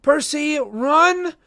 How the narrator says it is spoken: Annabeth, who yelled

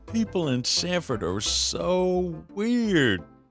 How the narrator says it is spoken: Sid chuckled

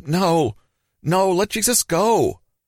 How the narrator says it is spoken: They were crying and shouting to those next to them

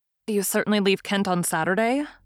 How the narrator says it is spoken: said she

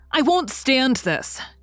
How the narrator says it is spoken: cried Daisy

